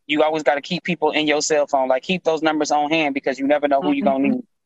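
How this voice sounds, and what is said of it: Texas accent. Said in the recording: “you are from Texas. I hear that accent of yours.”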